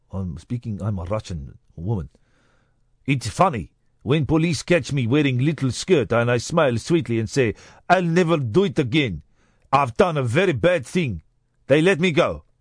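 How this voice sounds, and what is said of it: Put-on Russian accent. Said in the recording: “What is Russian accent? This is Russian. ... And then it became a bit Jewish towards the end there.”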